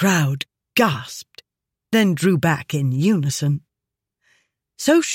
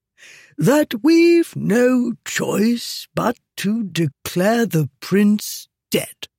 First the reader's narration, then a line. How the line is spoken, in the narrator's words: Zahak said calmly, his voice ringing out in the silence